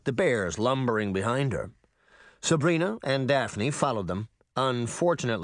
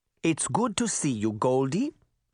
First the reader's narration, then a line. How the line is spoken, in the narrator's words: she said in her light German accent